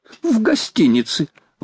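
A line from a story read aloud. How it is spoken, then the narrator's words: Exclamation. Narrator (Russian): воскликнул Паганель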